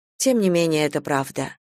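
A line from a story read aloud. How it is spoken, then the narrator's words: Dry remark. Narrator (Russian): сухо заметила Надежда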